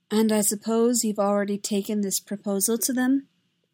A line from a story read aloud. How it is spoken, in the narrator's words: Amidala said coolly